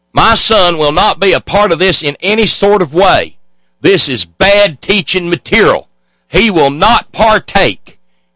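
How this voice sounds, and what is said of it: Exaggerated hillbilly accent. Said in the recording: “I get to do the dumbass cornpone hillbilly accent.”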